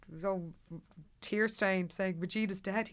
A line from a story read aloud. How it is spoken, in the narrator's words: he said brokenly